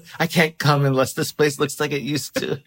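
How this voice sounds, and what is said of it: Old-timey mid-Atlantic sultry voice. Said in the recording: “I love your horny girl voice ... it feels old-timey ... You've got like sort of the mid-Atlantic kind of accent, but you're so horny.”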